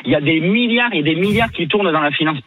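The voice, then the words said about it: Regional southwestern French accent. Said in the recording (French): “ton accent. Enfin, ton accent,... Saint-Étienne de Baïgorry”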